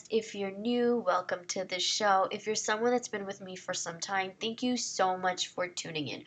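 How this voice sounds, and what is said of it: Congested, nasal voice. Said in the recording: “my voice is a little under the weather. I've had a nasal congestion for a week ... this is what I sound like”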